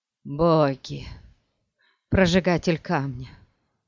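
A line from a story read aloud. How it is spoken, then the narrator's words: Groaned. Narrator (Russian): простонал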